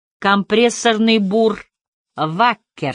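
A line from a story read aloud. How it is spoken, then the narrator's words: Plain. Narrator (Russian): сказал Харри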